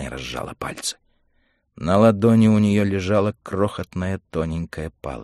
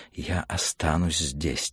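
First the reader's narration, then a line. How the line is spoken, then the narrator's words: Quiet reply. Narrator (Russian): тихо ответила она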